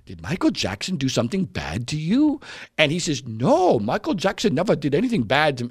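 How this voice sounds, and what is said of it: Put-on Asian accent, childlike voice. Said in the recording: “I'm doing an Asian accent, but I'm trying to be a kid here.”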